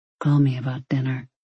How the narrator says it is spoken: he murmured

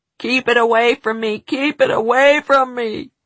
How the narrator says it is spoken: he howled

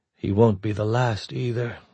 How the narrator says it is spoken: her mind said grimly

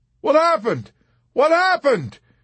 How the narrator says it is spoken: he cried, and trembled violently when he could not hear his own voice in his ears

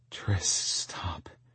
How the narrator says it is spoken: she whispered against my skin

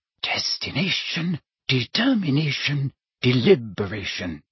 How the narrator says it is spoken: she murmured

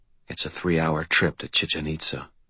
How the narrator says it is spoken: I said quietly

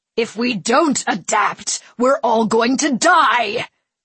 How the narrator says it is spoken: the Padawan bellowed, trying to intimidate them with the force of his will

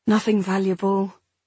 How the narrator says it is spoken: I said wearily

